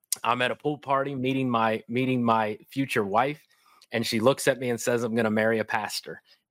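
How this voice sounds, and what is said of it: Kentucky accent. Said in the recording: “that's why I have this Kentucky accent, by the way. And so born and raised in Kentucky.”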